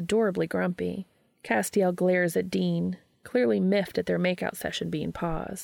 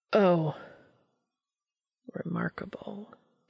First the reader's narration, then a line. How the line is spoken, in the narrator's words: Castiel mutters